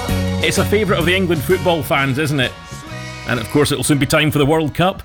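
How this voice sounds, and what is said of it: Scottish accent. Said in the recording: “as you can probably tell from my accent, I'm originally from Scotland”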